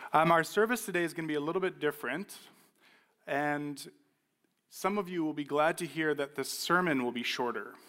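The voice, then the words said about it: Slightly hoarse voice. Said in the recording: “I thought my voice would be doing a lot better this morning, so I apologize that it's still a little bit hoarse.”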